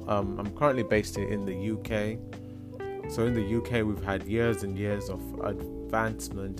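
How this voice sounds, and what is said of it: Woman's voice that sounds masculine. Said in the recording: “because of my voice ... you sound like a man? Why do you sound like a man?”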